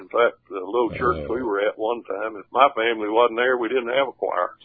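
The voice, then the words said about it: Southern drawl accent. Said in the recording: “that southern drawl you got going”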